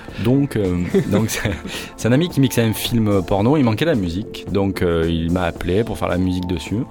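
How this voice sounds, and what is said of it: Noticeable regional accent. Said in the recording (French): “j'ai un accent. ... L'accent est autorisé.”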